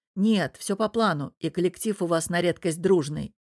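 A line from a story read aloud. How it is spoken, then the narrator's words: Smirking reply. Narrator (Russian): хмыкнув, отвечаю я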